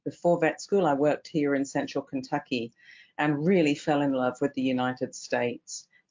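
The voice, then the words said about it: English accent. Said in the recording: “as you can tell from my accent, I'm originally English”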